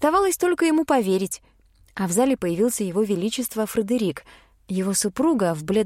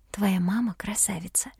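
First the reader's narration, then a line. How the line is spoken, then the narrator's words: Whisper. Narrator (Russian): шепнула я Рейну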